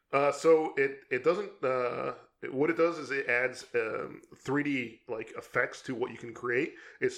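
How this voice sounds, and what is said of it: Strained, hoarse voice giving out. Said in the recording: “sorry, I'm losing my voice here ... You're dying over there. Take a drink of water, man ... Man, really losing it here.”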